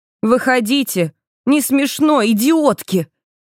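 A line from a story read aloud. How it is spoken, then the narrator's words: Shouting, woman. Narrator (Russian): кричала я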